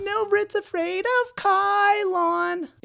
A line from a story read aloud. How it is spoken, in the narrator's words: shouted with a playground-style lilt